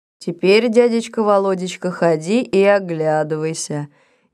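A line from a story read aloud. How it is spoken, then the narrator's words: Unexpectedly calm. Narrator (Russian): неожиданно спокойно сказал Митяй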